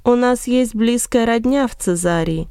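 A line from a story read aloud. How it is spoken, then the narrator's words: Plain. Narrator (Russian): ответил Варнава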